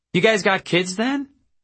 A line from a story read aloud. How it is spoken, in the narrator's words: Boney chirped, as if she had discovered good news